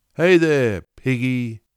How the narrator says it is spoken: yelled

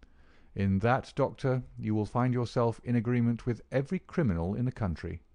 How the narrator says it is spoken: said quietly

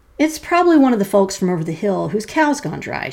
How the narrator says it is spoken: she said calmly

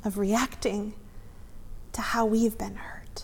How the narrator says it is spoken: She breathed again

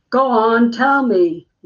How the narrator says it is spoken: shouting now

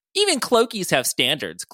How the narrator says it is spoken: Clokey said in his bitchiest tone

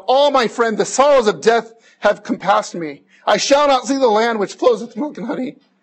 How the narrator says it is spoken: Christian then cried out

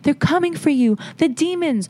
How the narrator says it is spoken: She kept screaming

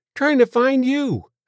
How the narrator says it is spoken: said Joe cheerfully

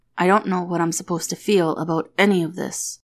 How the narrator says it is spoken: mutters from behind clenched teeth

